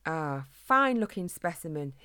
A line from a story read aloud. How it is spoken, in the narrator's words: he exclaimed with delight